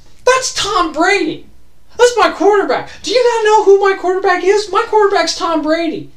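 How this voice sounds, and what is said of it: High squeaky excited voice. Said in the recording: “in a high squeaked voice ... When I get excited, I'm in a high squeaked voice.”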